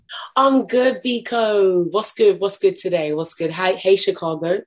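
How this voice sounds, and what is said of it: London accent. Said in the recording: “Your accent is everything. I love it. I love it.”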